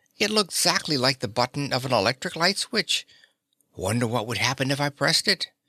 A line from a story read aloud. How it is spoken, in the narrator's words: exclaimed Dorothy